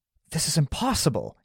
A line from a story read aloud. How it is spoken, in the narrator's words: gasped